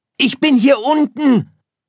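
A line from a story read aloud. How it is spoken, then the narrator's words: Calling back. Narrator (German): rief Sirius zurück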